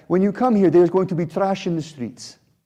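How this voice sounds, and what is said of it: Attempted Italian accent sounding Russian. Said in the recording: “This sounds more Russian, I think, than Italian. All right, so, okay, I'm gonna abandon the accent.”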